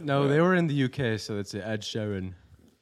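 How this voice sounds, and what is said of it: Good put-on British accent. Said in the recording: “That was a really good accent.”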